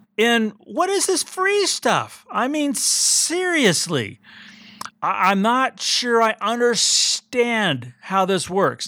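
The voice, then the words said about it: Agitated, excited tone of voice. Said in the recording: “as you might tell from my voice, I'm a little agitated, a little excited, and really disappointed.”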